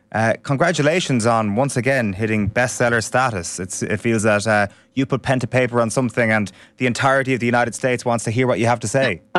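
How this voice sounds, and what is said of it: Fairly neutral Irish accent. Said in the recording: “What is this accent that you have? ... It's an Irish accent ... It's a pretty neutral one”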